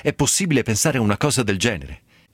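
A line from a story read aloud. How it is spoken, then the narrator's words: Sudden outburst. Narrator (Italian): sbottò il babbo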